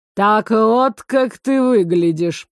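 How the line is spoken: Snorting smirk. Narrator (Russian): хмыкнул лорд

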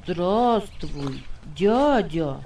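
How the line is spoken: Child's reply. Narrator (Russian): Ответил мальчик

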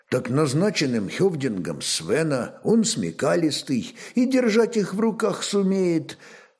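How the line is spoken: Quiet reply. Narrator (Russian): также негромко ответил князь

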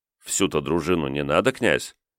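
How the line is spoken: Quiet speech. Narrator (Russian): тихонько промолвил полковник

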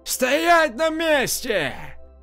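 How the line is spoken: Sailor's shout. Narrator (Russian): Последний матрос крикнул

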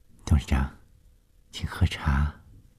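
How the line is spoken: Gentle, still shaken. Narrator (Chinese): 冷小丽被眼前发生的事惊得心颤颤的，她这才缓过气来，柔声地说

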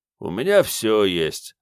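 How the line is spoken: Tired. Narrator (Russian): ответил бармен устало

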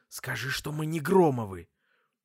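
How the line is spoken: Angry hiss. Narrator (Russian): сердито прошипел ей

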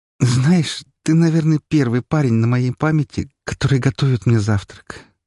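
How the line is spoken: Sleepy. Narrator (Russian): сонно сказала Марина

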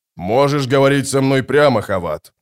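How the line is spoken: Booming voice. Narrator (Russian): прогудел барон

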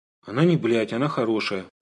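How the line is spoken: Mumbled. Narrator (Russian): промямлил я

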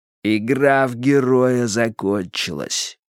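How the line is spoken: Through clenched teeth. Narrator (Russian): процедил Джонстон

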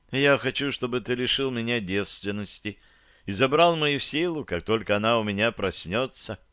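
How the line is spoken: Calm. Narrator (Russian): спокойно сказала

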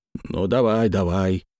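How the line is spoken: Calming grunt. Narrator (Russian): хмыкнул Ермаков, успокаиваясь

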